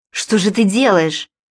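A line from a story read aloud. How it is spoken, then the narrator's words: Exclaiming. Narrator (Russian): воскликнул Джакомо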